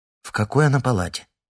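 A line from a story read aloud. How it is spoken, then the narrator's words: Plain. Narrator (Russian): спросила Лариса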